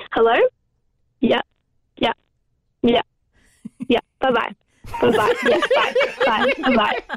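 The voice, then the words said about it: Imitates her dad's voice. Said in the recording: “Let's hear an impression from you of your dad.”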